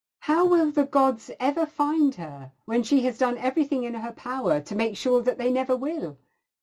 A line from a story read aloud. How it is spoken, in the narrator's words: exclaimed